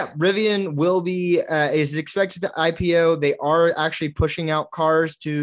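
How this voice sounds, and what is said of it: Usual voice. Nothing is said of it.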